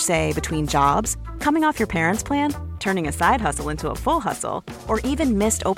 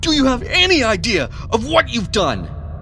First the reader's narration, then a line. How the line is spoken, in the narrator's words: Edward roared in a mixture of anger and panic